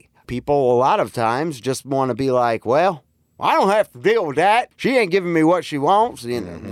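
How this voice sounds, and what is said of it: Put-on Southern US accent. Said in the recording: “I'm giving him a Southern accent ... The deep south is coming out of you”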